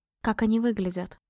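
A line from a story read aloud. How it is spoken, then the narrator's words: Anxious whispered question. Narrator (Russian): шепотом спросила, не в силах больше молчать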